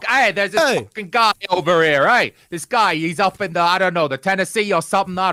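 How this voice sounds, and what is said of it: Poor put-on New York accent. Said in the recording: “I do a terrible New York accent ... That might be the worst New York accent we've ever had on our show before, by far.”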